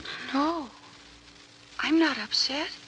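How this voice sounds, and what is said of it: Fearful whisper. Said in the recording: “why that fearful whisper?”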